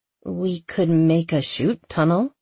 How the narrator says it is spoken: she said slowly

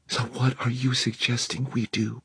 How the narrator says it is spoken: Helen whispered

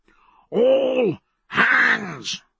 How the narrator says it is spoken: His voice tearing blood from his throat

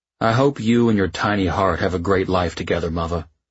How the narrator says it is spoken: he'd sighed and said

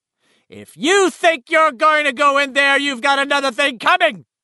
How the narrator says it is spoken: Eddie's mother shouted

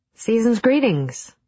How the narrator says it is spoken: I called out

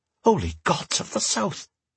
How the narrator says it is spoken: Stanley hissed

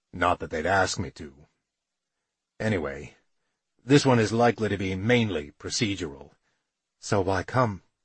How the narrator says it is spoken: My voice was cold, not something I recognized

